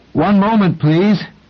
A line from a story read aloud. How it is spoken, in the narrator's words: rather desperately while calling out